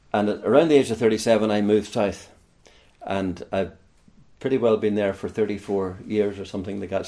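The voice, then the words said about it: Northern Irish accent. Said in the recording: “I come from Northern Ireland, as my accent gives me away, from around the Larne area, County Antrim area”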